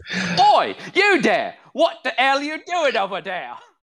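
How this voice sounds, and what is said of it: Put-on British mercenary accent. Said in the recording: “they all sound like British mercenaries ... a very distinct accent ... I did it no justice ... My impressions for the night”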